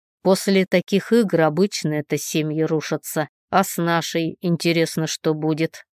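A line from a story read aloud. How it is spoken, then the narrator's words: Snorting. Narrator (Russian): фыркнул Ник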